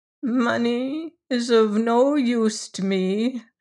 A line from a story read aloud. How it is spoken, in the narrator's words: said Miss Lefane mournfully